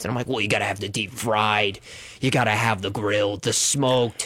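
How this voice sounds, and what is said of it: Noticeable accent. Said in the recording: “You even had that accent”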